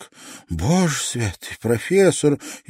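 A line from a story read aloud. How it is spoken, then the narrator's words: Frightened exclamation. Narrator (Russian): испуганно воскликнула она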